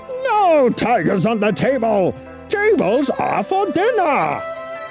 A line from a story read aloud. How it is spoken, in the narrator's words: Chen roared